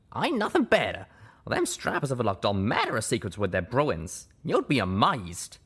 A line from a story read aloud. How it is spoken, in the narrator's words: exclaimed